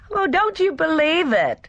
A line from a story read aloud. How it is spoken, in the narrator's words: Gina laughed merrily